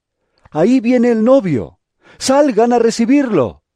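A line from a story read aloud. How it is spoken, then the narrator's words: A shout heard. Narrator (Spanish): se oyó un grito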